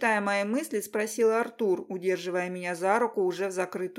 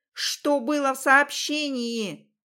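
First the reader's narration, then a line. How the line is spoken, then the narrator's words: Shouted through open door. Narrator (Russian): крикнула в раскрытую дверь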